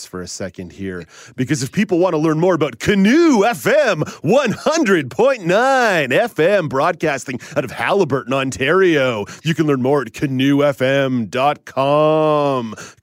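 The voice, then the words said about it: Radio broadcaster voice. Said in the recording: “I'm going to put on my broadcaster voice”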